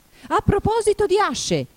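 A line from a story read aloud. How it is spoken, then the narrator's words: Duchess shouting. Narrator (Italian): gridò la duchessa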